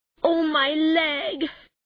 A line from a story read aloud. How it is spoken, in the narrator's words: he cried